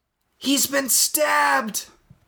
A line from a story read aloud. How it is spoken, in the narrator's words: Marty cried